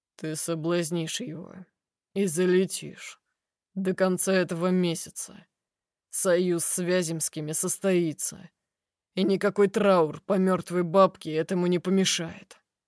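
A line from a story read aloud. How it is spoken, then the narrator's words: Uncompromising tone. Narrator (Russian): сообщает бескомпромиссным тоном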